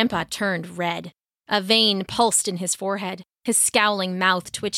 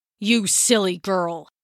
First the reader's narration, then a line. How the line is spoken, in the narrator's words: spat